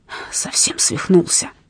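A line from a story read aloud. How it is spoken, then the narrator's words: Low whisper. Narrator (Russian): вполголоса прошептал он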